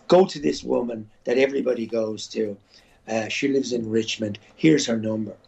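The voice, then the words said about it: Irish accent. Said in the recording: “you'll have to lose your accent. You can't be auditioning for parts with an Irish accent”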